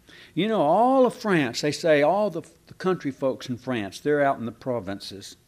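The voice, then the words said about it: Texan accent. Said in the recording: “you sound like you're from Cleburne, Texas ... you might try to work on your accent a little bit”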